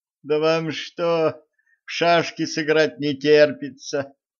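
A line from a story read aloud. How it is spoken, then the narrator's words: Groan. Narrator (Russian): простонала Женька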